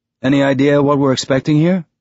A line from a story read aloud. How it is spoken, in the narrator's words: In a conversational tone, Amos said